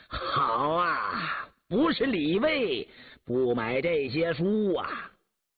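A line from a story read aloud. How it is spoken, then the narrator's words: Bursting into laughter. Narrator (Chinese): 乌斯道不禁失声大笑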